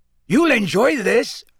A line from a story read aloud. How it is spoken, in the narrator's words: said Hagrid gruffly